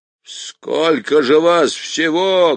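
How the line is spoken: Barked. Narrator (Russian): гаркнул он

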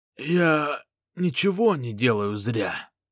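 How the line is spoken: Hoarse wheeze. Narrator (Russian): прохрипел он

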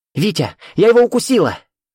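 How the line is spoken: Triumphant shout. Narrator (Russian): торжествующе крикнула Катя

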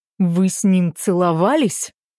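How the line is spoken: Growl close to ear. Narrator (Russian): прорычал прямо мне в ухо

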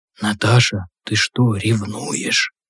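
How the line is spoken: Breathless whisper. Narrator (Russian): Затаив дыхание, прошептал Громов

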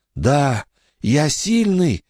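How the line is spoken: Hoarse. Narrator (Russian): хрипло произнес Билли

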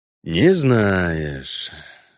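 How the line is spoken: Disappointed drawl. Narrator (Russian): разочарованно протянул Геральт

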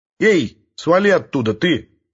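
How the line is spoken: Barked. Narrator (Russian): рявкнул Бруно на Хоре

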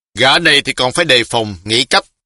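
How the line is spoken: Sharp shout. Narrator (Vietnamese): y lại quát một tiếng

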